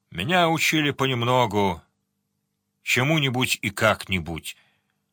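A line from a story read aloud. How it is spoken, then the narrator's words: Gloomy. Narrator (Russian): сказал Сварог мрачно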